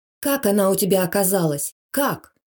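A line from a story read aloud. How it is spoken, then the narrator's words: Angry questioning. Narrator (Russian): зло допытывалась Алла Ивановна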